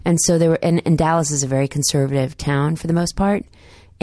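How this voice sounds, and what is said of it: Brief Southern US accent. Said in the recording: “my Southern accent just came out for a second”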